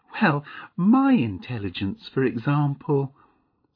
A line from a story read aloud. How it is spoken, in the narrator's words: said Mavis with a little laugh